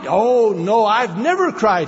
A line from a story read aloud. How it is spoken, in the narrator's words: he said